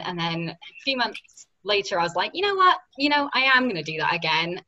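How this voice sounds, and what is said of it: British accent. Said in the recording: “my little British accent”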